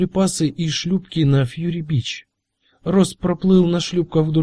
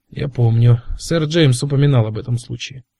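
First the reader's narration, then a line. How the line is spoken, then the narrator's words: Dry. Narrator (Russian): сухо сказал Кразье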